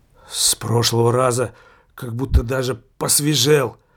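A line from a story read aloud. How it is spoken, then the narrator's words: Horrified mutter. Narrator (Russian): с нескрываемым ужасом пробормотал Вильямс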